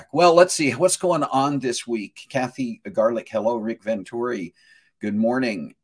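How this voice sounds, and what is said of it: Hoarse voice. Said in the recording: “I'm sounding a little bit hoarse... the hoarseness right now that I've got is just left over from the fact that I had a tube”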